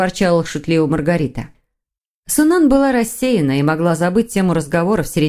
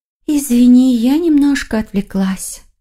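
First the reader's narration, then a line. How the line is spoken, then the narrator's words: Sighing. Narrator (Russian): вздохнула Юнхи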